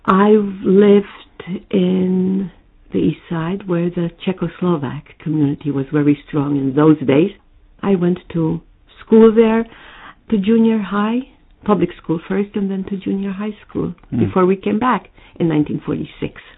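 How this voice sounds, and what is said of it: American mid-Atlantic accent. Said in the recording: “You have a strong, pronounced American accent even to this day ... Some people say I have a mid-Atlantic accent ... it isn't clean New York, but there's a bit of New York, Manhattan, East Side in it”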